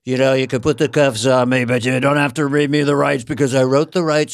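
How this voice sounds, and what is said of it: Donald Trump impression. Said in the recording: “I do Trump ... Trump with the Miranda rights”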